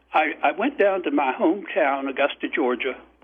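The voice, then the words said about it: Slips into hometown Georgia accent. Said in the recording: “I fall into the accent when I say Augusta, Georgia.”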